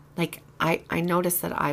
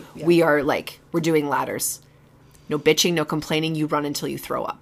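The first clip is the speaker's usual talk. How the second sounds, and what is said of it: Commanding coach voice. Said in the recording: “I will use my coach voice in the classroom ... I'll do this voice ... I default into that voice, I think, in situations where I need to posture”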